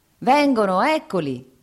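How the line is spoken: Peasant shouting. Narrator (Italian): gridò il contadino

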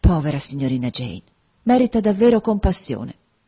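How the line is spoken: Sighing. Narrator (Italian): Bessie sospirò, dicendo

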